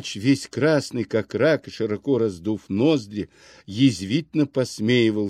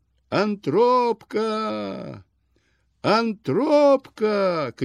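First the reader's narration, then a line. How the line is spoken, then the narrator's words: Tearful desperate drawn-out shout. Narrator (Russian): кричал он с упорным и слезливым отчаянием, долго-долго вытягивая последний слог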